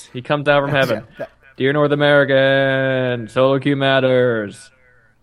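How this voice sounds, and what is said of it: Spooky put-on voice. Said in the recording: “That was my spooky voice.”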